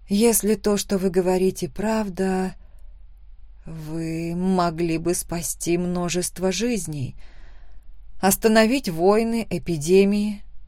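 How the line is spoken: Whispered. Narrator (Russian): прошептала я

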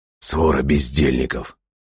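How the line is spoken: Muttering under breath. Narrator (Russian): пробормотал себе под нос Антуан Кате

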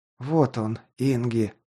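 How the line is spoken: Muttered. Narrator (Russian): пробормотал я

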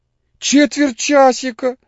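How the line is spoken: Squealed. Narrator (Russian): взвизгнул Моисей Моисеевич

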